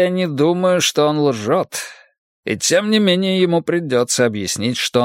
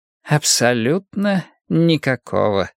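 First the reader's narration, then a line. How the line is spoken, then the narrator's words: Gentle reply. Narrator (Russian): мягко ответил Пуаро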